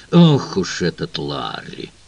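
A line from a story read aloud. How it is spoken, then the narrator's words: Grumbled. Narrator (Russian): буркнул Тернер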